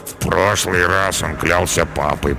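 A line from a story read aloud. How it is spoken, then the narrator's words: Mumbled. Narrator (Russian): пробормотал Карабас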